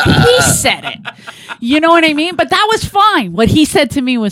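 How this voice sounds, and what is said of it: Usual voice. Nothing is said of it.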